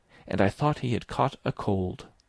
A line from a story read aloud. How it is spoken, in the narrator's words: Verloc muttered at the wall